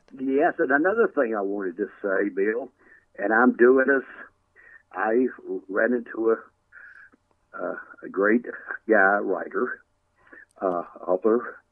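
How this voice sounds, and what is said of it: Tennessee accent. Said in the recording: “Bristol, Tennessee. ... can't you tell with this accent I got? Can't you tell I'm from up there?”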